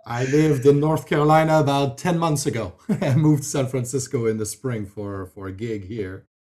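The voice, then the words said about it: French Canadian accent. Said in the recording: “that's where I'm originally from, Quebec more specifically. So that's where the French accent comes from.”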